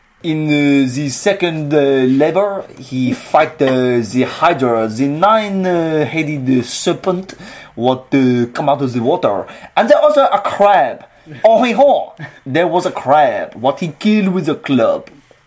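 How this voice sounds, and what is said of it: Put-on French accent. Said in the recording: “Second labour, with a French accent.”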